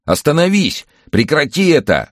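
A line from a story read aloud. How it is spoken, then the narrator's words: Desperate shout. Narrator (Russian): отчаянно закричал Максим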